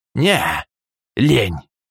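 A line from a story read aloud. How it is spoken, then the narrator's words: Dismissive snort. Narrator (Russian): хмыкнул Полос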